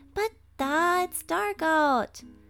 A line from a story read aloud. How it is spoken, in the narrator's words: she whined